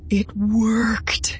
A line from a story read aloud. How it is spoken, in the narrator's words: he breathed, awed and delighted